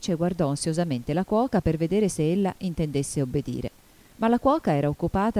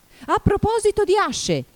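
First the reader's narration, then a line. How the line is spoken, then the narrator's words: Duchess shouting. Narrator (Italian): gridò la duchessa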